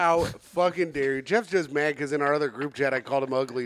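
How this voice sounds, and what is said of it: Usual voice. Nothing is said of it.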